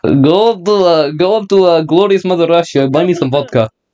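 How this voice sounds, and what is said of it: Put-on Russian accent. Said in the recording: “Speaks in Russian accent.”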